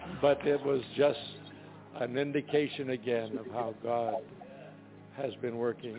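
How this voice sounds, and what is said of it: Hoarse, strained, weakened voice. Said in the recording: “Forgive my voice, so I've lost it today.”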